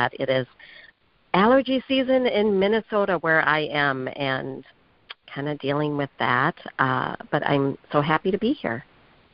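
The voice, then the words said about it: Slightly raspy voice. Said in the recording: “I do have a little bit of raspy voice”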